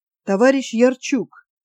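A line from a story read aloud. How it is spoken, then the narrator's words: Quiet. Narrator (Russian): тихо заговорил полковник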